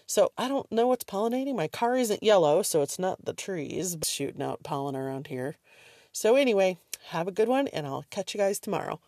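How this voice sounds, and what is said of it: Stuffy, congested voice. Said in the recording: “my allergies kicked up a little bit today. I don't know if I sound stuffy tonight”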